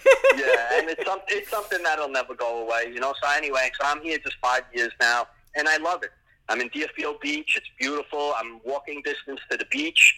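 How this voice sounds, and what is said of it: New York (Bronx) accent. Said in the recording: “I can just tell from your accent ... you're from New York ... born and raised BX”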